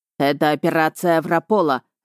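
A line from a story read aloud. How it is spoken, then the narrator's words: Barking snap. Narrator (Russian): рявкнул Рихард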